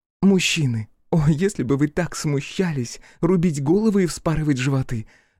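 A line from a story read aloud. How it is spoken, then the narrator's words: Laughing. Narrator (Russian): рассмеялась Матя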